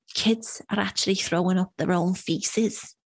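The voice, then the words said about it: Well-done put-on accent. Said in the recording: “I know you're so good with an accent.”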